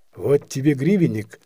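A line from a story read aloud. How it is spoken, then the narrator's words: Plain. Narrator (Russian): сказал Аксютка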